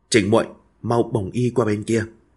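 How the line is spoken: Soft. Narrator (Vietnamese): Nàng khẽ bảo cô

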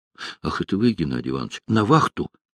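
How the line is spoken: Startled, frightened. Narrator (Russian): испуганно очнулся мичман

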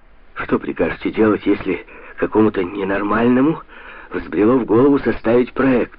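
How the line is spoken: Exclaimed. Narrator (Russian): воскликнула сеньора Табуссо

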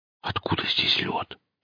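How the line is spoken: Whispered question. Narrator (Russian): шепотом спросил Алексей

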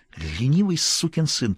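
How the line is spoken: Angry hiss. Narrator (Russian): прошипела Стефи

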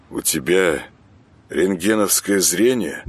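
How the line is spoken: Gloomy question. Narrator (Russian): мрачно спросил Саня

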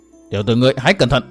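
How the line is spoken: Stern voice. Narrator (Vietnamese): Hận Thiên nghiêm giọng

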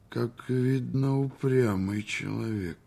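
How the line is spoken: Very gloomy. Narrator (Russian): сказал он весьма мрачно

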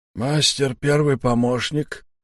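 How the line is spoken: Hoarse wheeze. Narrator (Russian): просипел Сиплый

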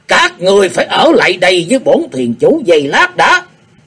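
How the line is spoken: Loud, eerie, menacing shout. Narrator (Vietnamese): Tử Dòng thuyền chủ quát mắt lên với giọng thật rùng rợn thê thảm quát lớn

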